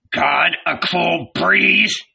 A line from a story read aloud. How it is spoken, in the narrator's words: he growled softly, infuriated